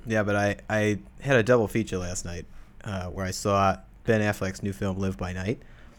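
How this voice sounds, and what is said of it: Put-on Boston accent. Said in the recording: “You don't get to do the Boston accent ... I've got to stick with this accent for a little bit longer”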